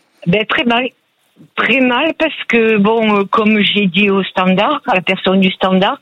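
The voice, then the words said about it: Southern French accent. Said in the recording (French): “vous avez un bel accent du sud qui ensoleillé”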